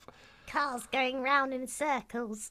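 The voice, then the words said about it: Weird Gollum-like character voice. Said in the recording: “That was such a weird voice. ... like Gollum, isn't it? ... That didn't sound like it came from your mouth.”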